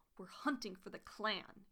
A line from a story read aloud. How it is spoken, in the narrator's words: he hissed